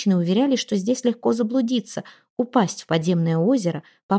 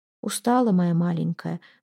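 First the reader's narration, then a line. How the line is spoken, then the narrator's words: Murmuring close to ears. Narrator (Russian): бормотала она в широкие лопоушистые розовые уши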